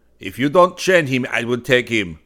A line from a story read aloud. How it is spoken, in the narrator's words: shouted the policeman